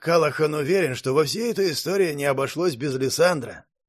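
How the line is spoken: Sighing. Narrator (Russian): вздохнул мастер Дерек

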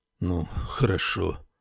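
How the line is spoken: Gloomy. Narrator (Russian): мрачно проговорил он

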